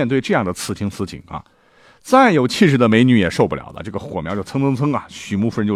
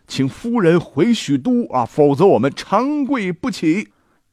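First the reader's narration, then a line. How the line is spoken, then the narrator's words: Loud. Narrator (Chinese): 大声的说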